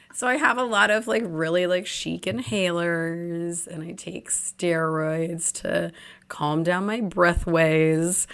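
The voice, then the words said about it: Hoarse, husky voice. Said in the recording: “You wouldn't know it by my voice currently ... I'm now just getting over a cold, which I lost my voice. So that's why I sound all sultry.”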